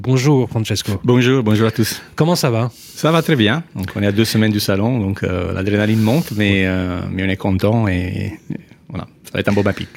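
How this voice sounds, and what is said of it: Melodious Italian accent in French. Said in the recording (French): “Qu'est-ce que je l'aime cet accent, c'est incroyable, extraordinaire. c'est mélodieux.”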